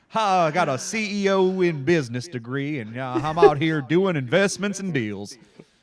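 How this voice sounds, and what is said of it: Put-on Southern Texas accent. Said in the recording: “give Mike a Southern accent ... I believe what it is to be Texas”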